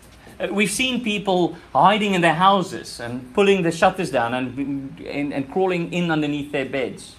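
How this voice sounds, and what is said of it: South African accent. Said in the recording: “This is where my accent is from. I'm from that country.”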